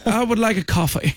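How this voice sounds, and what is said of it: Put-on posh British accent. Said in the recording (French): “elle avait un accent british, là ... Mais d'où vient cet accent-là, la Bridgerton, que j'ai jamais entendu de ma vie?”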